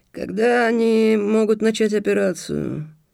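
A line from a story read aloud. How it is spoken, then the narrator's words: High hoarse creak. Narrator (Russian): проскрипел стратег Лаудэнь своим высоким хриплым голосом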